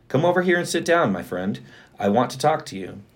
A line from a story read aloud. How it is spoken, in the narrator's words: Boaz called out to him